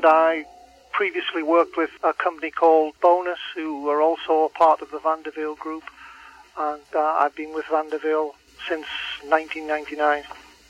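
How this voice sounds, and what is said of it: English accent. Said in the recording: “you speak with an English accent.”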